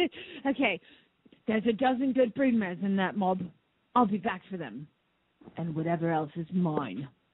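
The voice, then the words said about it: Bad put-on Australian accent. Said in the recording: “bad Australian accent”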